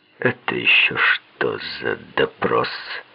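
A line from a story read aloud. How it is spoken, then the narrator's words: Unpleasant creaky voice. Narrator (Russian): Райс каким-то неприятным, скрипучим голосом произнес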